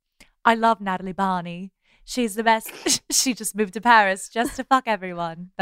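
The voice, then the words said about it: American doing a British accent. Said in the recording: “That's my British accent. ... When an American does a British accent, they just turn into Keira Knightley ... Is based on Piper Perabo's British accent.”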